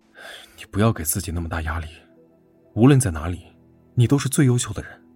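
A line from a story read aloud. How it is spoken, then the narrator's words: Sighing. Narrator (Chinese): 赵斌叹了口气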